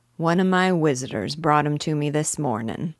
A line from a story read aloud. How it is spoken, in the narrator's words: he said